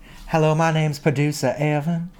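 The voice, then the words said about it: Imitates another person's voice. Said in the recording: “my producer Evan impression ... it reminds me of someone ... this voice”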